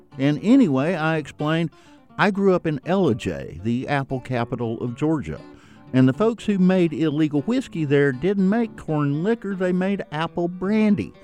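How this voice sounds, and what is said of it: Georgia accent. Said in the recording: “heard my accent”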